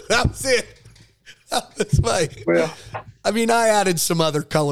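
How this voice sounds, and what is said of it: Usual voice. Nothing is said of it.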